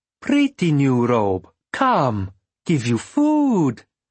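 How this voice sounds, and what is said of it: Heavy foreign accent. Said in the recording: “In a heavy accent”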